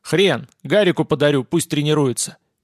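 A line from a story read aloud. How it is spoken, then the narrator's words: Cheerful boyish bark. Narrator (Russian): весело гаркнул пацан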